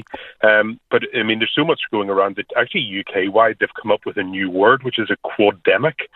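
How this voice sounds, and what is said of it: Slightly croaky voice. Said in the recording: “You can probably hear even in my own voice, I'm a bit croaky.”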